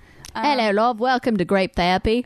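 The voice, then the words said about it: Australian or New Zealand accent. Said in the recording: “See, that was like Australian/New Zealand.”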